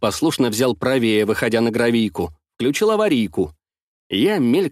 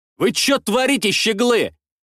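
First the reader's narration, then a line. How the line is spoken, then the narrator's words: Indignant bark. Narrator (Russian): Возмущенно рявкнул я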